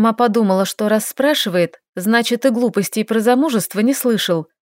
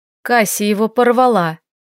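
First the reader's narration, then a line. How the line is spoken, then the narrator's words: Angry. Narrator (Russian): зло произнесла Лиля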